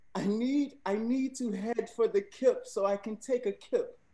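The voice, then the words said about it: Attempted British accent. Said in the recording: “attempting to read the sentence in a British accent”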